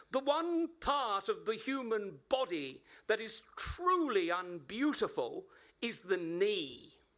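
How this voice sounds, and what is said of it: Shrill, very English accent. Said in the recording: “shrilled the headmistress in her very English accent”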